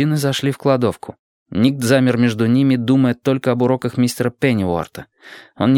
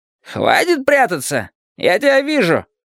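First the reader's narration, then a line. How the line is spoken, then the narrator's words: Loud declaration. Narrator (Russian): громко заявил он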